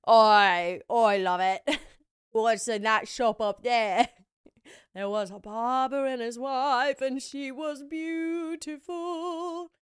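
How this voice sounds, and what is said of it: Rugged British accent. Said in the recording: “rugged British accent”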